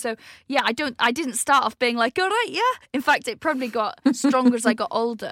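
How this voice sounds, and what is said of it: Hard-to-place northern or Welsh accent. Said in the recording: “he's northern. Some think he's Welsh ... I've got that accent where you can't necessarily place exactly where I'm from ... my accent is a bit homeless, really. It doesn't really belong anywhere.”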